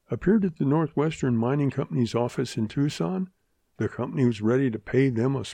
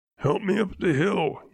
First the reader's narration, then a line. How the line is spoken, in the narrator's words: he choked